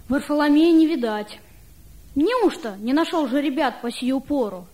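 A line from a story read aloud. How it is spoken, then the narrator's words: Plain. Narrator (Russian): Сказал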